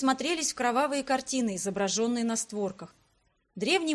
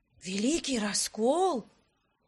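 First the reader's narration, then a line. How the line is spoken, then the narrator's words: Reverent whisper. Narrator (Russian): благоговейным шепотом спросил Арман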